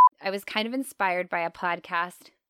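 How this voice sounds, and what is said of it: Put-on Minnesota accent. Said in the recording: “I said that with a Minnesota accent”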